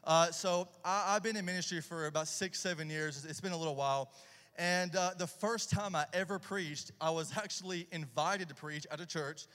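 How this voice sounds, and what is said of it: Southern Tennessee country accent. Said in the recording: “I'm originally from Tennessee, about an hour south of Nashville. So if you're hearing the redneck boy accent”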